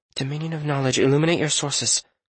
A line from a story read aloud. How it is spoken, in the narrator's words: Lydia mumbled